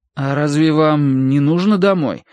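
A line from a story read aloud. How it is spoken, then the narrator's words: Disappointed drawl. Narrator (Russian): огорченно протянул Терренс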